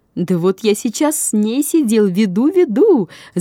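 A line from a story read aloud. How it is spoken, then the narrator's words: Shouting. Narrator (Russian): закричал он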